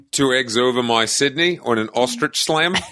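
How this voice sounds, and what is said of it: Shaky Australian accent drifting Nordic. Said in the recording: “You kind of went into like a Nordic ... Australian accent's never been one of my strong suits ... you always slide out into a different accent ... look, mate, I'm from Australia, from Germany”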